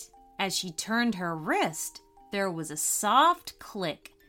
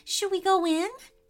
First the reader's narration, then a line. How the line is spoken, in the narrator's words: asked Isabella nervously